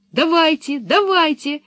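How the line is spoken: Excited shouting, two voices. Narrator (Russian): восторженно закричали Томми и Анника

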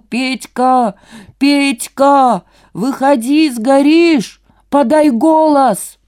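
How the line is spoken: Muffled full-force shouting. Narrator (Russian): Человек в маске кричал со всей силы через маску

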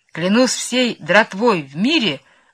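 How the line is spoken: Exclaiming. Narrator (Russian): воскликнул он

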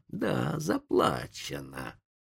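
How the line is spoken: Hissing. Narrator (Russian): прошипел индеец

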